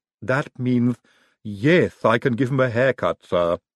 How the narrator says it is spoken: Igor sighed

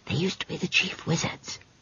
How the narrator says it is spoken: whispered Esk

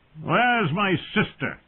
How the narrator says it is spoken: Viserys shouted, his voice thick with wine

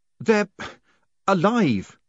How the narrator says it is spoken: he gasped

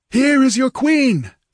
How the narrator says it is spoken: yelled Valerius, straining to make himself understood above the clamor

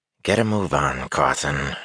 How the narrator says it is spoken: she growled

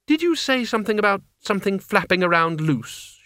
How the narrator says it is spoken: she said, in the tight voice of someone pulling themselves together

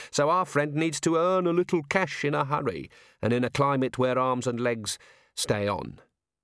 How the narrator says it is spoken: said Tea Time cheerfully

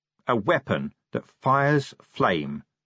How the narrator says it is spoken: he said slowly

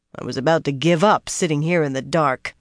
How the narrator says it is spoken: Pevara growled

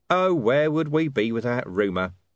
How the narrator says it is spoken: said Vimes

